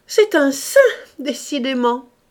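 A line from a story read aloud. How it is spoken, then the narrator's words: Sneering. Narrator (French): dit en ricanant Madame Paloc à Monsieur de Condamin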